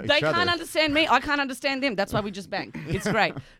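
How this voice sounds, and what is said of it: Australian accent. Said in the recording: “are you Australian? ... Yes ... my disgusting accent”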